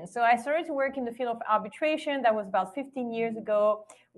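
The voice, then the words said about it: Slight French accent. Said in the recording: “I started working in France, where I was born, hence the French accent a little bit”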